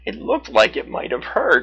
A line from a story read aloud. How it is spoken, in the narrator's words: she said with a laugh